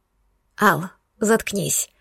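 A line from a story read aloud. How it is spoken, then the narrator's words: Hoarse whisper. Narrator (Russian): хрипло прошептала я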